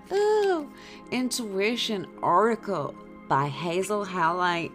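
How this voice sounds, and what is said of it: Put-on American accent. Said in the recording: “I put on an American accent ... Like Boston or something.”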